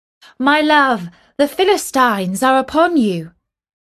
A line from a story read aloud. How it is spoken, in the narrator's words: She called out